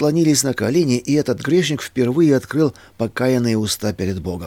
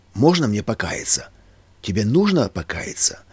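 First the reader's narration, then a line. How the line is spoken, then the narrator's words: Calm, soft question. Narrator (Russian): он успокоился, смягчился, тихо спросил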